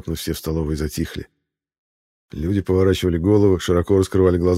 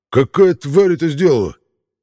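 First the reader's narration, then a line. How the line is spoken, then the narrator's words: Barked shout. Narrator (Russian): Рявкнул он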